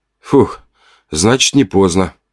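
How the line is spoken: Relieved exhale. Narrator (Russian): выдохнул

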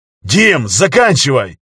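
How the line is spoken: Barked. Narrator (Russian): рявкнул Костя

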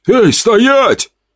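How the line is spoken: Guard shouting. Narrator (Russian): выкрикнул охранник

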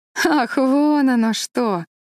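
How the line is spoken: Laughing. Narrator (Russian): рассмеялась Энн

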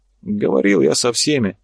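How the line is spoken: Sighing. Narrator (Russian): Карабаев вздохнул

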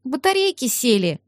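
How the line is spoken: Flat statement, then sigh. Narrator (Russian): констатировала Карина и вздохнула

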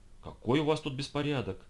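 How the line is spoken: Female exclamation. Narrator (Russian): воскликнула Мэри

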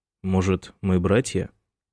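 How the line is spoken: Wry snort. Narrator (Russian): хмыкнул Майкл

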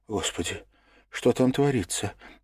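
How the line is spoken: Frightened whisper. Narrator (Russian): испуганно прошептала Лиза

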